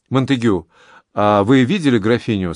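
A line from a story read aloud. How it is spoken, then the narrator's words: Plain. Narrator (Russian): спросил Анри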